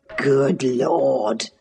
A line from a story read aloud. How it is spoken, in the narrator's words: he muttered